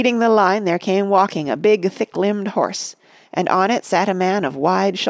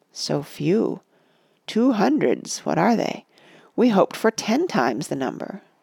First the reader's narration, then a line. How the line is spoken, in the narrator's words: the men of Lossarnach had passed, they muttered